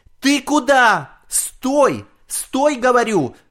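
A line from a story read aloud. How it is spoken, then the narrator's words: Grandmother shouting. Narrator (Russian): кричала бабушка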